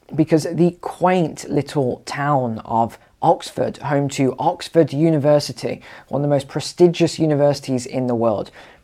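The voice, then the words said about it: Hoarse, rough voice. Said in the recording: “I do have a very sore throat today. So please excuse my voice”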